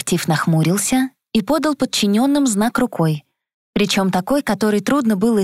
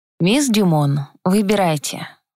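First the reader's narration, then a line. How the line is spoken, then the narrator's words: Ingratiating, silky. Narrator (Russian): вкрадчиво предложил Элис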